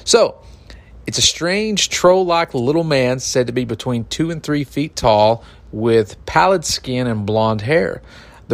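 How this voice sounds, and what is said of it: Eastern Kentucky hillbilly accent. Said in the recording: “I'm a hillbilly from Eastern Kentucky ... You don't say with that accent.”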